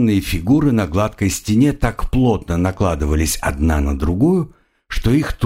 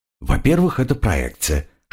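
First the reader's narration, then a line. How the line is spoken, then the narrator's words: Whispered reply. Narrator (Russian): шепотом отозвался Тимур Алк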